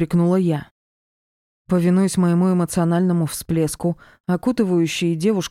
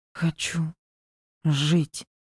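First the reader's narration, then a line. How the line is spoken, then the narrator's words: Tearful terrified gasp. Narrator (Russian): выдохнула она, распахивая полные слез и ужаса глаза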